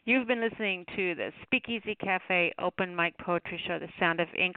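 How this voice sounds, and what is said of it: Tired, strained voice. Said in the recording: “My voice is starting to give out.”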